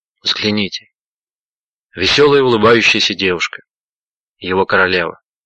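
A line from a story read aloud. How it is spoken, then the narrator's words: Tearful whisper. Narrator (Russian): На глазах его заблестели слезы, прошептал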